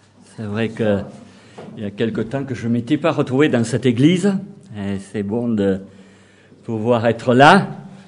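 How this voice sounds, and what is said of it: Southwestern French Toulouse accent. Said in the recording (French): “je venais de Toulouse, du sud-ouest, avec un accent particulier”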